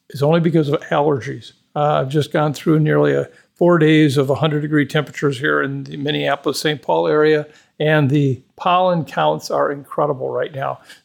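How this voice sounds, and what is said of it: Hoarse voice. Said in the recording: “I am sounding hoarse. ... If you think my voice sounds off, it's because of the allergy issue.”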